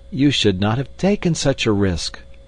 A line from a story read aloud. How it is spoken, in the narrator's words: we all cried